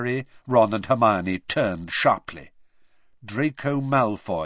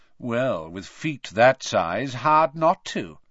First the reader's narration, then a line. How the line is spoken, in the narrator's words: said a drawling voice from behind them